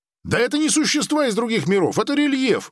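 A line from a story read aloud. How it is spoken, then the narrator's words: Shouting out. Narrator (Russian): выкрикнул Грик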